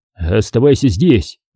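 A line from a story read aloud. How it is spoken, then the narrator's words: Barked shout. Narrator (Russian): рявкнул он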